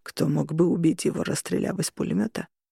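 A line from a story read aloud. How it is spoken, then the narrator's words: Muffled question. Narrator (Russian): глухо спросил Джереми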